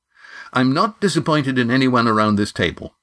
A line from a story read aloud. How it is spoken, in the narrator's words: said Astraea firmly